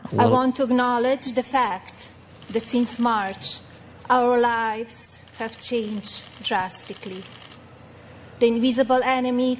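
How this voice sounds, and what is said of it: Foreign-accented English. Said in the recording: “she's criticized for her accent ... you can hear”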